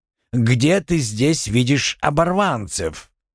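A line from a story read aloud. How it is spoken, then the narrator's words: Young woman barks. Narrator (Russian): Девушка гаркнула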